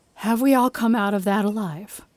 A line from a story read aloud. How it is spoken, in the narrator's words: She asked solemnly